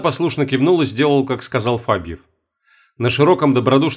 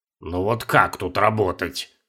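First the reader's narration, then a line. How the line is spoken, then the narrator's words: Grumbling. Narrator (Russian): ворчал штурман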